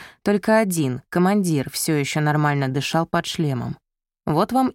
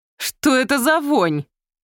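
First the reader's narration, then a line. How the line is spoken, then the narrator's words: Exclamation. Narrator (Russian): воскликнул Леопольд, прикрывая нос рукой в перчатке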